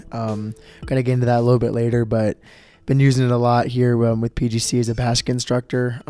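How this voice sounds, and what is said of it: Strained voice, not at full strength. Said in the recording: “my voice may sound a little bit weird... my voice is not at 100%”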